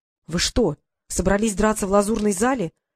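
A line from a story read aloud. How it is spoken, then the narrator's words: Desperate exclamation. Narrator (Russian): в отчаянии воскликнул он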